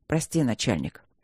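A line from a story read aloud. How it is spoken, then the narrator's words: Muttering. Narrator (Russian): пробормотал Кембридж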